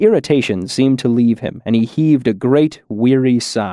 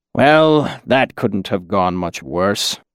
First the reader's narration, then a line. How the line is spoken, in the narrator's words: the old man muttered